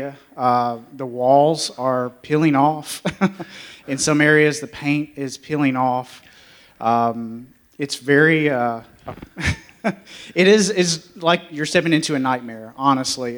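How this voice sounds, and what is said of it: Southern drawl. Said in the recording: “It's my southern drawl.”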